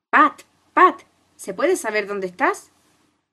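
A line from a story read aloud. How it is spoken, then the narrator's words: Angry shouting rabbit. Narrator (Spanish): la voz airada del conejo, que gritaba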